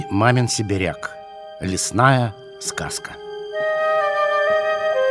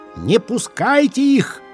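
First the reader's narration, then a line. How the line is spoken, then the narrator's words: Shouting tree, rustling leaves. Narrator (Russian): кричала горькая осина, шелестя своими дрожавшими листиками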